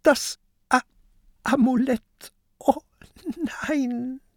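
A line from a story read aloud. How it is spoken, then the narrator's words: Sobbing. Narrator (German): schluchzt Peter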